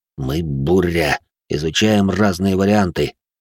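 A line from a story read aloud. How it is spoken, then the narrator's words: Gruff mumble. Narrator (Russian): буркнул Винс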